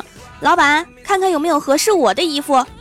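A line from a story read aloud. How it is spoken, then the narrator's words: Loud, cheerful shout. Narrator (Chinese): 二百二十斤的闺蜜欢喜，她就干脆多了，往店门口一站，朝里面大喊一声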